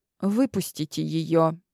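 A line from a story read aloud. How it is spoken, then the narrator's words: Quiet request. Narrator (Russian): тихо попросила я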